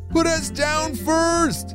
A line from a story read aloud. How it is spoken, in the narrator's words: Enzo shouted back